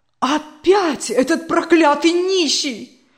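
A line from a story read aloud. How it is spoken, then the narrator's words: Loud exclamation. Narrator (Russian): громко воскликнула Берта Петровна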